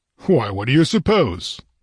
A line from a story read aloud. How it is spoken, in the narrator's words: he replied impatiently